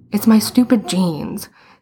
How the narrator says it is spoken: he said miserably

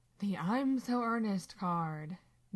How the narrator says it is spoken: Dean sighs

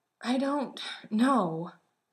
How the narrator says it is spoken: Sam said, his breath coming out in short little grunts

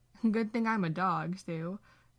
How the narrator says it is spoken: Dean laughs

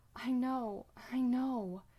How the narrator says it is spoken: Sam gasps out

